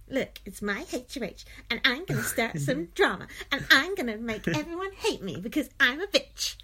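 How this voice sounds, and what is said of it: Imitates another person's voice. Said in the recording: “That's my Kayla impression.”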